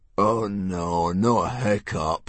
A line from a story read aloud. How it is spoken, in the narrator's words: groaned Dog's Breath the Durbrain, and most of the other boys